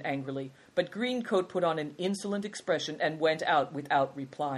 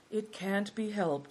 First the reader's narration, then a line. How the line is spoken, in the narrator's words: sighed Good Fortune